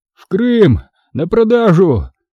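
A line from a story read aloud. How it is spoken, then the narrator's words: Captive's hoarse rasp. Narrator (Russian): прохрипел пленный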